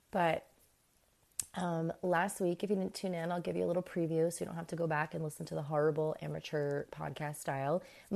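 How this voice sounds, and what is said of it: Hoarse, fading voice. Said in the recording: “losing my voice as I'm talking to you guys. That is so bad.”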